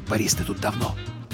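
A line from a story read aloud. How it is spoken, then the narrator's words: Whispered question. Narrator (Russian): Александров шепотом спросив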